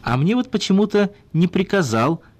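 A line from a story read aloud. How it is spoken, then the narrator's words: Joyful laughter. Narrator (Russian): радостно засмеялся Глухих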